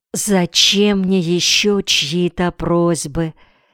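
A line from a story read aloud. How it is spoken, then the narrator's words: Whisper. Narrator (Russian): невольно тоже перешла на шепот Медея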